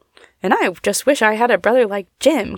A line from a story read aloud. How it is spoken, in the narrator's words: cried Fanny, for she felt the reproach in Tom's words and knew she deserved it